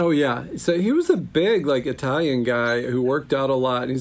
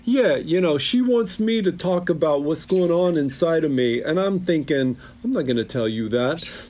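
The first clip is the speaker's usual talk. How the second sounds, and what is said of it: Imitated Italian Staten Island accent. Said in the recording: “he's got this Italian Staten Island accent that I cannot do justice to”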